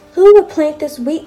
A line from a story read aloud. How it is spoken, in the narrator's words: cried the little red hen